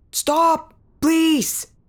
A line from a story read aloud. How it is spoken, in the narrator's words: the mare yelled into the storm, but she could barely make it out as thunder swallowed his words